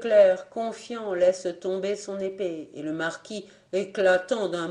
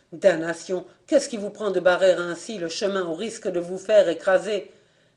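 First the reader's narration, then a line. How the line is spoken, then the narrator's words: Moaning, stammering voice. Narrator (French): La voix gémissante balbutia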